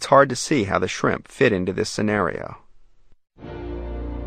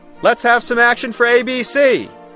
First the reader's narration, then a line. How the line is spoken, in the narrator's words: shout, and the effect is distinctly more dramatic